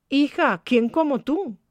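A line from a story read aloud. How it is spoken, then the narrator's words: Young employee exclaiming. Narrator (Spanish): exclamaba la empleadita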